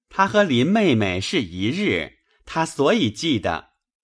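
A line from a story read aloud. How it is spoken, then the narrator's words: Laughing. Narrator (Chinese): 宝玉笑指袭人道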